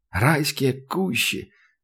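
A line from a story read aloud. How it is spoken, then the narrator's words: Delighted muttering. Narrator (Russian): с восторгом пробормотал Сашка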